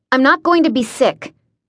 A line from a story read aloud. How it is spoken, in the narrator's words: I snapped, wanting him to shut up